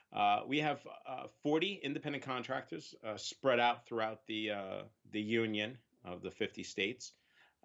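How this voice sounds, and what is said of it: Long Island New York accent. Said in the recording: “everybody makes fun of me saying it, but we are uh, based in Long Island, New York. Uh, I have to accentuate that Long Island accent there.”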